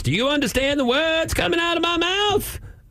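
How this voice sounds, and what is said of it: Chris Tucker imitating Chinese accent. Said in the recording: “the voice of a black actor doing an impersonation in a way of a Chinese actor ... I couldn't actually place even that accent”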